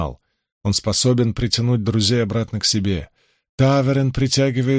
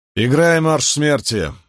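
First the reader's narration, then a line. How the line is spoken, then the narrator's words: Harsh command. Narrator (Russian): велел Ранд более грубым тоном, чем хотел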